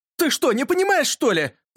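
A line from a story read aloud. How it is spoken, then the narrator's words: Shouting. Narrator (Russian): закричал Юрка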